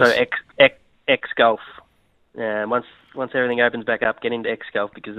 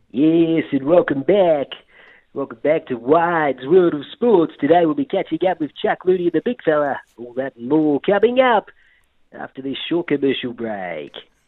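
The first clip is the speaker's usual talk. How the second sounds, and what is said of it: Impression of a sports commentator. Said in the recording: “I've got a commentator for a bit of a blast from the past... the impersonation I have got tonight is Max Walker... Not bad.”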